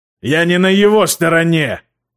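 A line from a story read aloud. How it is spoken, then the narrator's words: Roaring. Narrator (Russian): проревел Родриго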